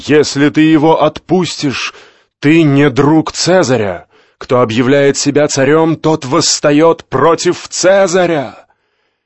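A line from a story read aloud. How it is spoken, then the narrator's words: Crowd shouting. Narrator (Russian): они закричали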